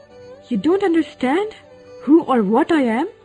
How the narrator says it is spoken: shouted

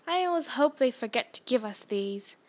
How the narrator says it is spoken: said Fred Weasley, sadly

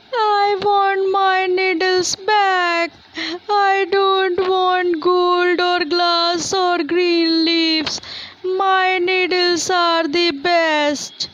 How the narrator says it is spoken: The little tree was now fed up and screamed

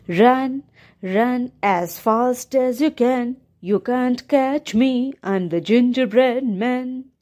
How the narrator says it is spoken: he sang in a sweet voice

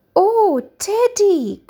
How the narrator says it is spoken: cried Becky happily

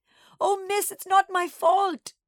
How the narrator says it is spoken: Nana sobbed

